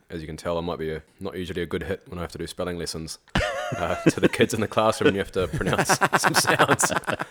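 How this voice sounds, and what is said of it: Slight South African/New Zealand accent. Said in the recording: “can I detect a slight accent there? ... a South African, New Zealand, Kiwi kind of background”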